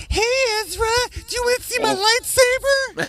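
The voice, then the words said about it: Creepy character voice impersonation. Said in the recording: “Herbert the Pervert impersonations ... It was so creepy.”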